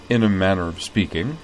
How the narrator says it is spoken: said Jury dryly

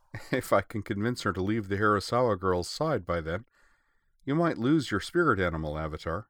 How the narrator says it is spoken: Nemo agreed, then added with a chuckle

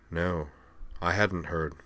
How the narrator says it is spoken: Devlin looked slightly ashen, and replied in a subdued tone

